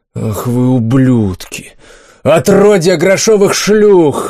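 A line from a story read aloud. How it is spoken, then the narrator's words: Roaring rage. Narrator (Russian): взревел рыцарь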